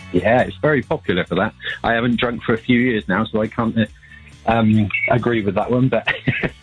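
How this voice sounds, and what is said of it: Bristolian accent. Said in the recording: “We detect a Bristolian accent”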